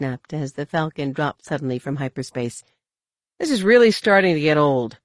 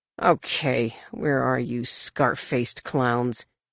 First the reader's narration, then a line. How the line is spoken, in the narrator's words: He growled